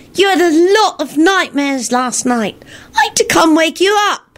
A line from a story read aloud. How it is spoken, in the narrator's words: Teddy piped up cheerfully